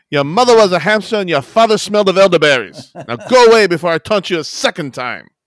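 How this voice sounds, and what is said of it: Exaggerated bad French accent. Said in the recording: “Are you French? ... Of course! Why else would I speak with this horrendous accent?”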